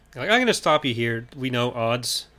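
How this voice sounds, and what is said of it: Impression of the character Luke. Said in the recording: “That was like my impression of Luke in universe”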